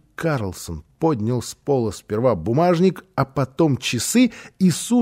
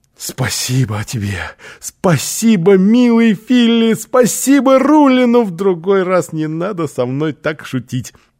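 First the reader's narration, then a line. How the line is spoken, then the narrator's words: Exclamation. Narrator (Russian): Оскар воскликнул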